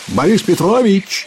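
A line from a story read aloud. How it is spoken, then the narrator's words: Shout. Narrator (Russian): крикнул он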